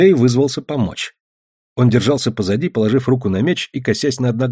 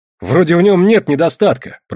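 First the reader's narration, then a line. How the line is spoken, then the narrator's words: Grumbling swan. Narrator (Russian): проворчал лебедь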